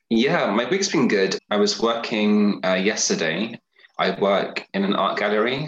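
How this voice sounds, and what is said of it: British English accent. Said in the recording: “your accent, of course, you're from the UK”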